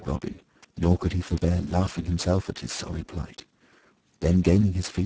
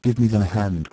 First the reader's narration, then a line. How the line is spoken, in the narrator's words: cried he